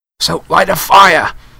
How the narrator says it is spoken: Harry choked

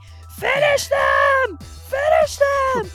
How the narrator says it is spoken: screaming

